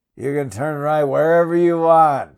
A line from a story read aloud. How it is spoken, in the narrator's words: said, and laughed